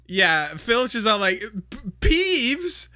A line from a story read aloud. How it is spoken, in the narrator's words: stammered Filch as though he had never heard the name before